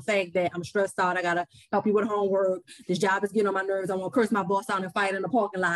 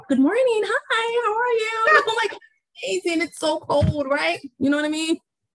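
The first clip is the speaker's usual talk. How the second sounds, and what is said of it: Code-switched polite work voice. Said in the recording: “I saw the code switch ... you gotta switch it off and on ... with this accent”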